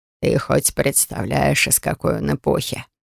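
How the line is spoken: Keeper laughing loudly. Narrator (Russian): хохотал хранитель

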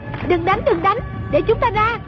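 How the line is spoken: Shouting. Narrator (Vietnamese): Trung Linh la lên

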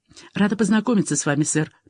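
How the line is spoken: Mumbled. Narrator (Russian): пробормотала Фиби и добавила с некоторым вызовом

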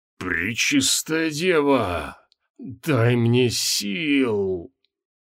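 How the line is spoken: Hoarse wheeze. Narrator (Russian): прохрипел лот Белькисир

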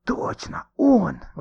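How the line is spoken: Excited whisper. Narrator (Russian): восторженно прошептал Никита

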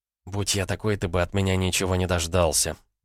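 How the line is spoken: Young woman grumbling. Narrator (Russian): проворчала молодая женщина

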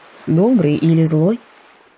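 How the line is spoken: Plain. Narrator (Russian): спросил он

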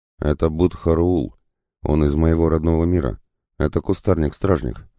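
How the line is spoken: Plain. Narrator (Russian): ответил демон

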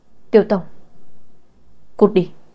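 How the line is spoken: Slightly angry. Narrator (Vietnamese): La Tây có chút tức giận nói

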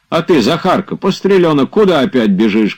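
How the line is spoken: Shouting. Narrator (Russian): кричал

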